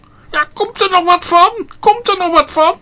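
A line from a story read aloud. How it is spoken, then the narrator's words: Shout. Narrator (Dutch): riep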